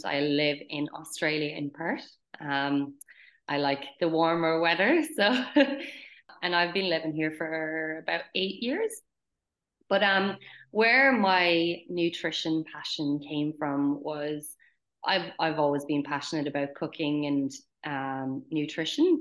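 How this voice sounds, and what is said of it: Irish accent. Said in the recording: “where that beautiful accent is from ... I'm obviously Irish”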